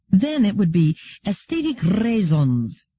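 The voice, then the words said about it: Exaggerated accent with long rolled R. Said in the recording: “my Solarian accent ... The R rolled interminably.”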